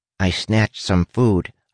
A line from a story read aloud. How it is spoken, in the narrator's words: Huck said